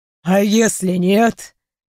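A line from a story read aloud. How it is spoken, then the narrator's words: Snorted. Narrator (Russian): хмыкнул Тиклукейл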